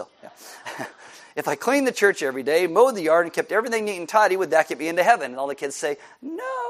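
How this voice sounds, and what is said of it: Usual voice. Nothing is said of it.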